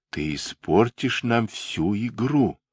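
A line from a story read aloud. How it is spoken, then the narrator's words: Whispered. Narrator (Russian): прошептала Энн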